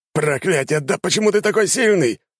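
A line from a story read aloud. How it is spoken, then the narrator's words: Knight shouting. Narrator (Russian): выкрикнул рыцарь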